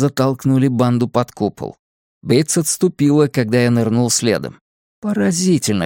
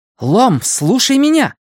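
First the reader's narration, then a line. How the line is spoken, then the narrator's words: Barked. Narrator (Russian): рявкнула Бейтс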